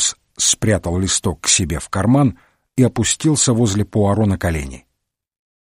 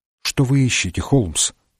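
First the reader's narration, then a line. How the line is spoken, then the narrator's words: Timid question. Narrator (Russian): робко спросил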